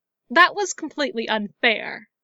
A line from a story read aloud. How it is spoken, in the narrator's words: she snapped